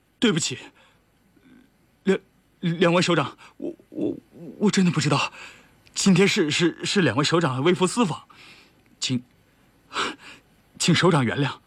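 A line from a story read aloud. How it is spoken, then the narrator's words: Stammering. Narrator (Chinese): 他有点傻了 结结巴巴的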